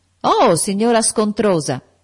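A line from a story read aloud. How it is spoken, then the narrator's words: Shouting. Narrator (Italian): gridò John Reed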